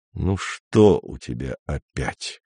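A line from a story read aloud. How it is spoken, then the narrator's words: Dejected question. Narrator (Russian): спросил Андрей уныло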